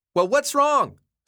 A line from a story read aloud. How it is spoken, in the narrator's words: yelled back